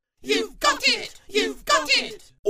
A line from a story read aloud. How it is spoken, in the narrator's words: all of them squealed